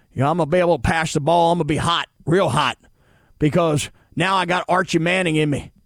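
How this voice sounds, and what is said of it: Put-on Southern cowboy twang. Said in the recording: “He can talk like this ... cowboy twang ... talks with this southern accent”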